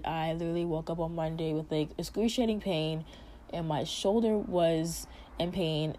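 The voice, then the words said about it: Damaged, strained voice. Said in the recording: “as you guys can hear, my voice is like, I don't know, it's very messed up obviously... please excuse my voice. I cannot control it... now I sound like a weird person”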